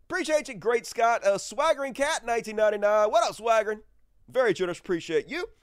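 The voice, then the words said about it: Congested, stuffy-nosed voice. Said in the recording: “Nose still stopped up. I can hear it in my fucking voice. I don't sound as good as I normally do.”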